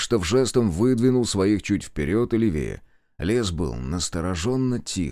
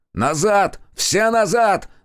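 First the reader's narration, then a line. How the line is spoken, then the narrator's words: Yelling. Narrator (Russian): заорал Зотов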